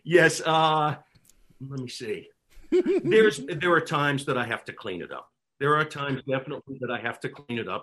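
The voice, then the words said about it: New York accent. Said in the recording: “As a fellow New Yorker, I adore your accent ... can you take it out of New York?”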